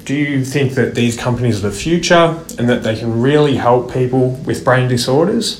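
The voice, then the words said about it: Thick Australian accent. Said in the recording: “with the thick Australian accent”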